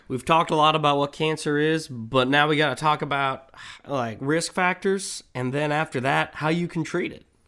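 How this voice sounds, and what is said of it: Speaks with a twang. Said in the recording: “You doing an accent right now? ... You got like a twang.”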